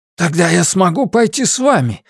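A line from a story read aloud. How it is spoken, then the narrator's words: Ardent exclamation. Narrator (Russian): с жаром воскликнул Каллаген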